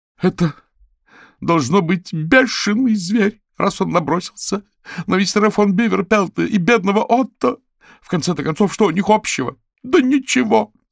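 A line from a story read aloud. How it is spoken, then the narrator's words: Woman shouting. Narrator (Russian): закричала Эдит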